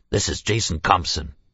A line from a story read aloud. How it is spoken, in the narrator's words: he said, his voice so harsh and thick that he had to repeat himself